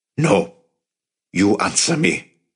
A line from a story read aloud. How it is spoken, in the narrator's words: Avi growled